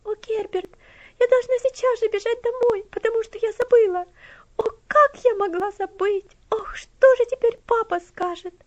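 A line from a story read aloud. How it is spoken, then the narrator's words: Alarmed exclamation. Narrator (Russian): воскликнула тревожным голосом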